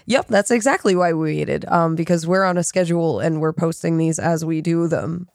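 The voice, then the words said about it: Sick, slightly off-sounding voice. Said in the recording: “I'm a little sick, and so my voice sounds a little weird today”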